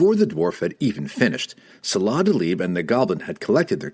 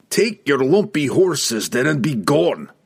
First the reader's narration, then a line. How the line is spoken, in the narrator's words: Brunner roared